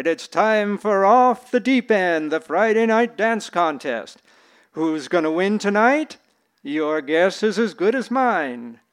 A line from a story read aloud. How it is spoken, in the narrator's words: he shouted